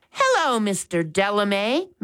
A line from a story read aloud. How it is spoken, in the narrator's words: Max said cheerfully